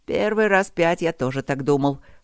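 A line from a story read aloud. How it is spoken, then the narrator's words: Wry snort. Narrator (Russian): хмыкнул Люк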